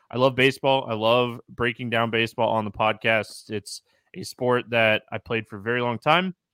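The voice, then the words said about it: Excited, pumped-up voice. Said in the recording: “I'm excited, I'm pumped, you can hear it in my voice.”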